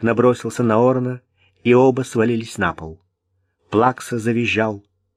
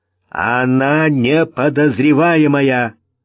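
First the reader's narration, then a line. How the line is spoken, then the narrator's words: Loud, repeating. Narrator (Russian): громко повторил Вик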